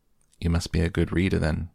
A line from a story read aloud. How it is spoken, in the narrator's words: I replied